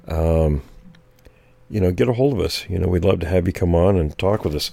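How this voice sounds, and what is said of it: Strained, fading voice. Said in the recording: “Excuse me, losing my voice. ... I'm still losing my voice, guys.”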